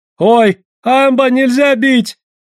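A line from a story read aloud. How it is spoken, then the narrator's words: Fearful wailing crowd. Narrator (Russian): вопили гольды, опасаясь, что тигр станет им мстить, если дадут охотникам оружие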